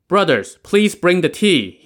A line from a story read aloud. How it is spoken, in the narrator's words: called out